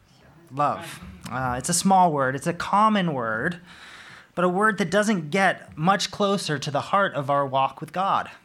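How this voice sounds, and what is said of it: American accent with a twang. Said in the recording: “my American twang”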